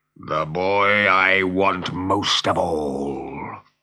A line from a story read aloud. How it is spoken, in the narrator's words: growled Hook